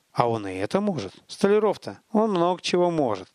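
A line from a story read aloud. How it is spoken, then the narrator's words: Gloomy reply. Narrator (Russian): мрачно отозвался наемник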